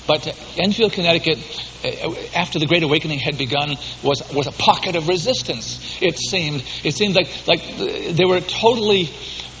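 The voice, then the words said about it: Boston Yankee accent. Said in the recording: “I was born and bred in Boston. Some of you can tell that I still have enough Yankee accent to not be able to hide that.”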